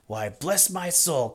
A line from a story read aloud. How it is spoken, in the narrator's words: cried Fred